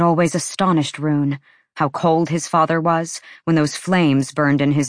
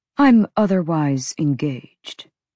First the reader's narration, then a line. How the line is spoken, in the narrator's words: his father said calmly